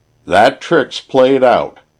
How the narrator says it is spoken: shouted Sam

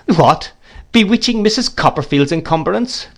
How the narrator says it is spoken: cried the gentleman

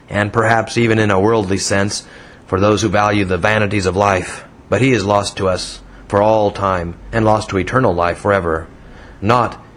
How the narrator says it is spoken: returned the deacon scornfully

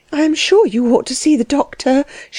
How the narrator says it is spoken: she said nervously

